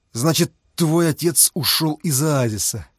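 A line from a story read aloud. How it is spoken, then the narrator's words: Through gritted teeth. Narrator (Russian): цедил сквозь зубы Фома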